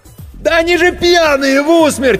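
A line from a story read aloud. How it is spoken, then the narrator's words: Frantic scream. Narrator (Russian): истошно заорал Серега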